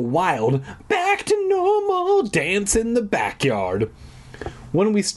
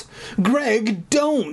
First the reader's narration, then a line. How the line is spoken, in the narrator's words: Sherry pleaded, like a rational human being